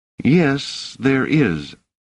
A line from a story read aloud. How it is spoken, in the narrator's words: said Doors uneasily